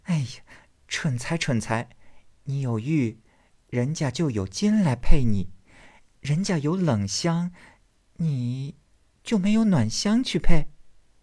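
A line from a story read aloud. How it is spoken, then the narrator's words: Sighing laugh. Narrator (Chinese): 黛玉叹笑道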